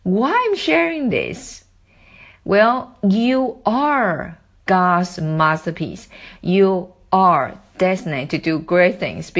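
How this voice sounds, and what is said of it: Non-native English accent. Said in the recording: “I am not American nor British ... As my English accent, now you're listening, is not good enough.”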